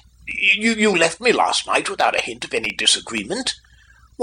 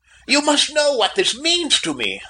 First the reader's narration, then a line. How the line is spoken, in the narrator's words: I cried